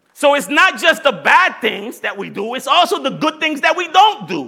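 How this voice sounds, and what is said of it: Strong Puerto Rican accent. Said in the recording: “My Puerto Rican accent is hard today.”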